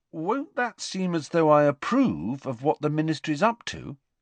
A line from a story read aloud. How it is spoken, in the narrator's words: said Harry, still endeavouring to keep his voice friendly